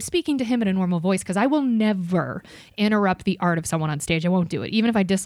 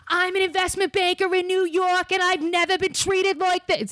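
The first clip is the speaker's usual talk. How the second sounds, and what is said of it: Put-on New York accent. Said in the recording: “I can't do a good, like, believable no, New York good. Accent, but good. ... It's exactly so what investment bankers from New York sound like.”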